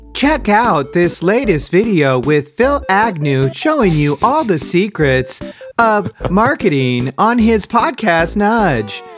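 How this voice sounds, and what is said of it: Imitates TikTok synthetic voice. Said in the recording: “I was trying to do the TikTok voice. ... That was scary. ... That was really scary.”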